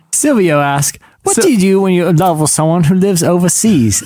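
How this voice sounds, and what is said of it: Fake British male accent, mixed. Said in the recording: “male and British, because that's the only fake voice I can do ... That was like a conflation of like seven accents, and it was pretty impressive”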